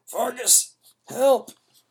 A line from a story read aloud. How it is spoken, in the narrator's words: wanted to shout the words, but nothing came out but a loud groan of pain